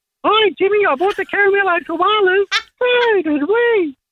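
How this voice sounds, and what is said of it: Childlike Caramello Koala character voice. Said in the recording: “I can actually do children's voices too if you want. The Caramello Koala”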